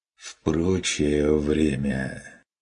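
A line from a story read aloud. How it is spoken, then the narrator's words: Tired sigh, hunter. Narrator (Russian): Вздохнул охотник устало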